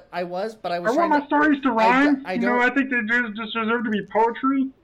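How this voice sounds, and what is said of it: Imitates another person's voice, Kermit-like. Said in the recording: “you got to do more like Kermit the Frog ... He definitely sounds like he could be Kermit the Frog”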